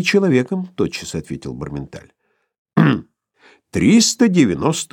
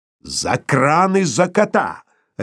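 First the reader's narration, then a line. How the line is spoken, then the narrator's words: Barked, losing ironic calm. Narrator (Russian): рявкнул друг Филипп Филиппович, выходя из состояния иронического спокойствия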